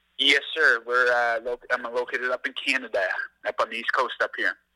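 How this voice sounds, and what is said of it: Canadian East Coast accent. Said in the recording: “the accent gives it away too”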